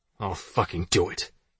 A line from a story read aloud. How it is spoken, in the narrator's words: he snapped